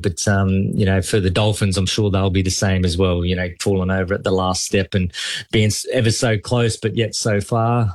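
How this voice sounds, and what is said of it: Noticeable accent. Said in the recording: “you've got the accent”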